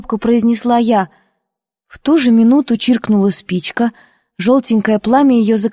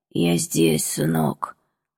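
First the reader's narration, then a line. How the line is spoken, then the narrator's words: Muffled hoarse voice. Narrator (Russian): ответил глухой и хриплый голос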